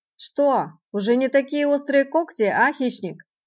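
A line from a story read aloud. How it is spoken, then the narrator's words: Loud, to be heard. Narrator (Russian): говорил он громко, чтобы точно быть услышанным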